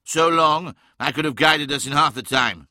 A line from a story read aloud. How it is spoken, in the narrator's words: cried Magnus